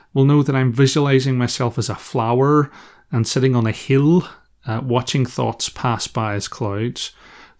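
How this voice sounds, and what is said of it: Northern Irish accent. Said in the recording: “my Northern Irish accent”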